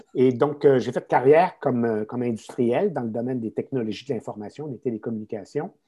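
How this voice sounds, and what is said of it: Québécois French accent. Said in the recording (French): “je suis un Québécois, hein, ça se notera peut-être à mon accent.”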